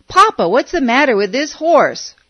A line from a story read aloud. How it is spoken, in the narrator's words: He hollered